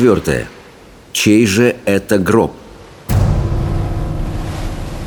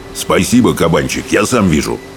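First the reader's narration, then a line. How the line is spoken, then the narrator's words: Shrill snapping braggart. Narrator (Russian): огрызнулся брехун крикливый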